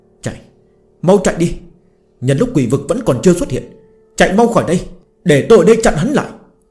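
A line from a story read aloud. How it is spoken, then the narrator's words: Panicked loud yell. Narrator (Vietnamese): Mặt Chu Chính thất sắc, hét lớn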